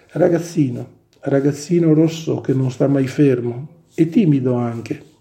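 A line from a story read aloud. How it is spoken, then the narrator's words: Very calm and cheerful. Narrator (Italian): con voce molto calma e allegra ripeté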